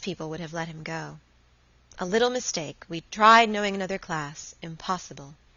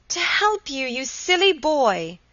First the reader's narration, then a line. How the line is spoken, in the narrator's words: cried Helen